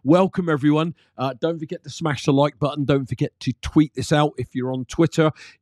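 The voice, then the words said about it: Voice affected by illness. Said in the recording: “forgive my voice. I've been a bit unwell for a few days”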